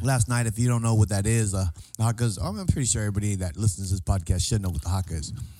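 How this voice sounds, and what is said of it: Hoarse, worn-out voice. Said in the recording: “my voice is gone. It's shot. Yelling up there ... I was yelling my face off”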